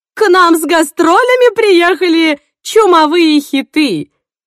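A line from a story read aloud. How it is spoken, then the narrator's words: Shouted. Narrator (Russian): закричала мать Сандры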